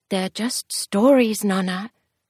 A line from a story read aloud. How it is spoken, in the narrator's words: Amelia said quietly